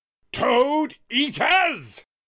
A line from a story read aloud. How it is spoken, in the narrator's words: Washington continued to yell in the other room